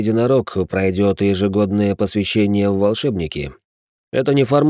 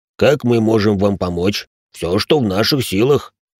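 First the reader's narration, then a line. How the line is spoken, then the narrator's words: Deep bass from another room. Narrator (Russian): пробасил Салих из ванной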